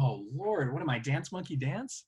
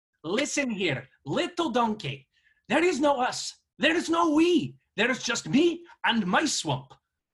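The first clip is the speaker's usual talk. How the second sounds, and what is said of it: Put-on Scottish accent, cartoon ogre voice. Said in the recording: “that Scottish accent”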